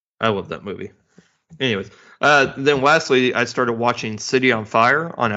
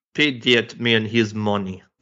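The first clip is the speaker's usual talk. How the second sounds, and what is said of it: Imitation of a Russian accent. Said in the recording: “my horrible impression of John Malkovich doing a horrible impression, Russian impression”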